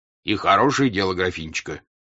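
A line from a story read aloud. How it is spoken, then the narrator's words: Plain. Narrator (Russian): сказал дядюшка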